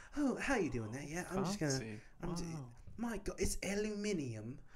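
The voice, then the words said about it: Put-on British accent. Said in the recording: “I'm going to speak in a British accent”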